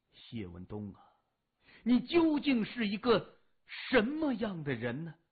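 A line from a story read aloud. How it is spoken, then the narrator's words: Sighing inner thought. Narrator (Chinese): 何浩然长叹一声，心里默默的想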